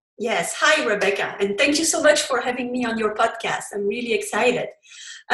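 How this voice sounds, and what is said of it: Belgian French accent in English. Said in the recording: “you heard from my accent. English is not my first language. I come from Belgium and I speak French”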